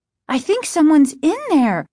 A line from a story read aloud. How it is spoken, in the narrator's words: Margaret exclaimed